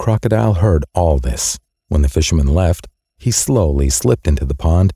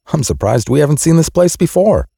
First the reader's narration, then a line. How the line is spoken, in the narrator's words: exclaimed